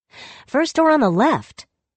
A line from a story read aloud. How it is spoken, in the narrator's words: she called out again, annoyed that she couldn't hear her commands being followed with promptness